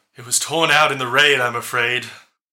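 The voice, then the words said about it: Deep female character voice. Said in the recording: “this woman with the deep voice.”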